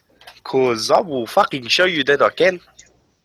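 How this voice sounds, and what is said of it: Put-on South African accent. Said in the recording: “Can you do a South African accent? ... That's pretty good. ... It's all right. It could be better.”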